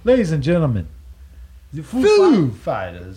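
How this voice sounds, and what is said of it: Christopher Walken impression. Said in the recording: “My Christopher Walken impression”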